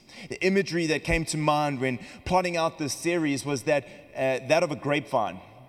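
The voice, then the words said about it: South African accent. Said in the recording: “We come from South Africa, if you've noticed the accent”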